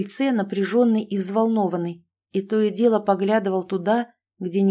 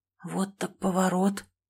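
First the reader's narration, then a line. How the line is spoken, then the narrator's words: Whisper. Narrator (Russian): прошептал я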